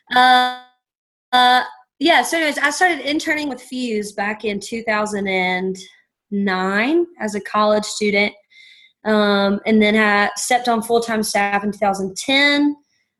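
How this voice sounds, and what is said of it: Eastern North Carolina accent. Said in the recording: “let me explain my accent. It is the East Coast of North Carolina.”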